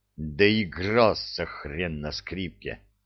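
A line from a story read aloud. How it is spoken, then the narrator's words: Gloating through teeth. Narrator (Russian): процедил Кречет злорадно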